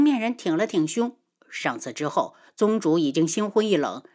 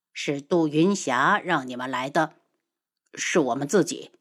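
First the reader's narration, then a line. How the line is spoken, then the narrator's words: Cold. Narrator (Chinese): 他冷声道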